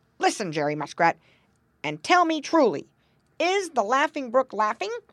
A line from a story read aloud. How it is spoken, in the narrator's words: cried Grandfather Frog sharply